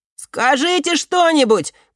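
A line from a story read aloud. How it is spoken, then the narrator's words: Shouted. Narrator (Russian): крикнул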